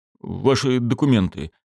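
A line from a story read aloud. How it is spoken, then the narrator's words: Uncertain repetition. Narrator (Russian): неуверенно повторил участковый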